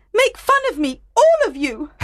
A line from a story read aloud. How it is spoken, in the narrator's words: Helena shouted